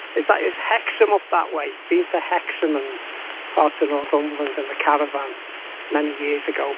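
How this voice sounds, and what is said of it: Mild Merseyside English accent. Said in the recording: “you sound like you're from Liverpool... Merseyside accent... you never lose the accent... maybe it's not quite as pronounced as some of the Merseyside accents”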